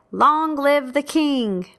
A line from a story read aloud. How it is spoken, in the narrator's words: So all the people shouted and said